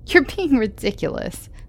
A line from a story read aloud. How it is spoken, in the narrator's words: I laughed